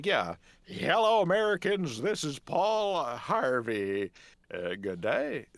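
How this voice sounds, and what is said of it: Imitates another person's voice. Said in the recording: “I got really good at doing Paul Harvey impressions ... do a really good impression of Paul Harvey”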